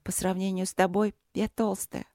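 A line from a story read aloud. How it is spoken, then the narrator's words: Glum. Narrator (Russian): уныло продолжила Каролинка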